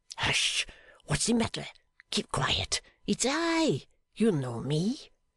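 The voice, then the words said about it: Suppressed, hushed voice. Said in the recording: “cried the other in a suppressed voice.”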